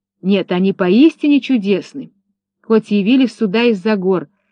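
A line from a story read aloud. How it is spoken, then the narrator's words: Exclaiming. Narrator (Russian): воскликнула Рамина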